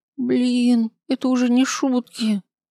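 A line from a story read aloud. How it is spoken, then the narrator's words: Groaning. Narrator (Russian): простонала Весенняя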